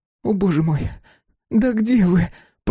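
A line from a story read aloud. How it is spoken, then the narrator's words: Moaning. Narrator (Russian): простонала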